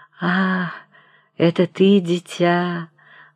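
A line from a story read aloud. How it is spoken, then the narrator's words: Gentle, barely audible. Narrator (Russian): ласково произнес он едва слышным голосом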